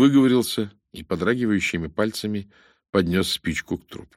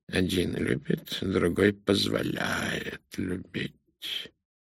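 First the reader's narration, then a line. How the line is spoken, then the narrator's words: Muttered. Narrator (Russian): пробормотал Пуаро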